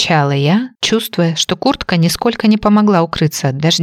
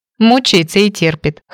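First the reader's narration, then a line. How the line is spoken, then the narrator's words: Snort. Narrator (Russian): хмыкнула Газа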